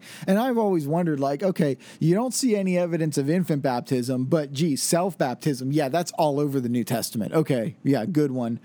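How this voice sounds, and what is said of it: Snarky, sarcastic tone. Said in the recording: “hear the snarkiness in my voice”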